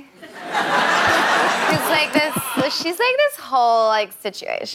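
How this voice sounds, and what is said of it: Put-on Valley Girl American accent. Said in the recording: “my American accent kind of changed a little bit into Callie from the Valley ... the Valley Girl accent”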